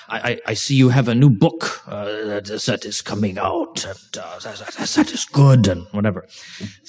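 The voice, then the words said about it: Put-on German accent. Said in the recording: “that's my best German accent I can do”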